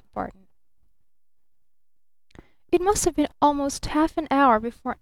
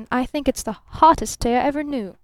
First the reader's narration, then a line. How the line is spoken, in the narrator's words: snapped Barton